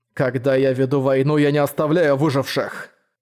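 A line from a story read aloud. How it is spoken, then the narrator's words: Cold, through gritted teeth. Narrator (Russian): холодно процедил Манхао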